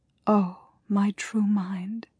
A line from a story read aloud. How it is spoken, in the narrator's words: she whispered in the dark